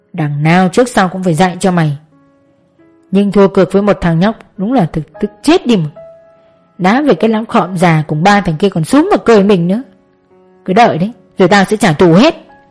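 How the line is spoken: Muttering. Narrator (Vietnamese): gã lẩm bẩm

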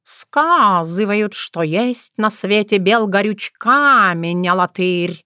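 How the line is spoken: Soothing three-voice purring. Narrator (Russian): Усыпляюще мило мурлыкали коты на три голоса

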